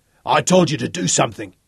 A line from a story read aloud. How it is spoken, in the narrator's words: snarled hoarsely